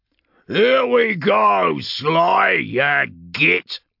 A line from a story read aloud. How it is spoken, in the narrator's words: Urgork bellowed, grinning from tusk to tusk